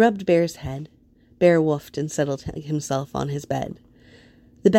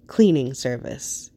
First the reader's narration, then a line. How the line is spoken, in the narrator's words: Harold said dryly